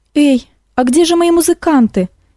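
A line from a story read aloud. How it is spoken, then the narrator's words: Frightened exclamation. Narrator (Russian): испуганно воскликнула Эликс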